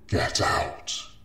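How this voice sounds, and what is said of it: Screamed, growling, layered monster voice. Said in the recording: “she screamed ... The voice sounded like a thousand voices strewn together and resembled a growl”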